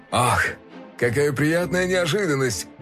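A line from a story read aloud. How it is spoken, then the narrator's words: Laughing. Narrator (Russian): рассмеялся он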